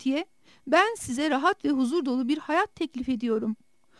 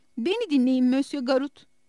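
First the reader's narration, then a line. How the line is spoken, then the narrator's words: Plain. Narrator (Turkish): dedi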